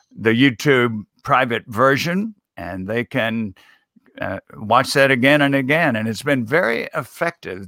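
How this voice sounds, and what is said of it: Appealing, approachable Southern accent. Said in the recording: “You're a southerner, so there is accent. It, it it's an appealing, approachable accent.”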